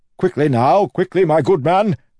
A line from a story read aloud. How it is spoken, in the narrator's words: Wayne shouted